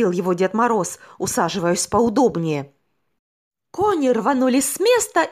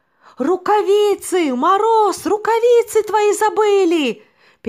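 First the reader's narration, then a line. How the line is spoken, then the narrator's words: Shouting snowman. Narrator (Russian): закричал снеговик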